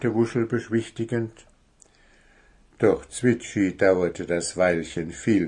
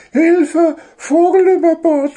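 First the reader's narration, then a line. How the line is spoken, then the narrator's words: Shouting. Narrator (German): schrie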